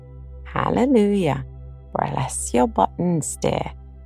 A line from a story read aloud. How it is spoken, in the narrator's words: He put his head on one side and gravely croaked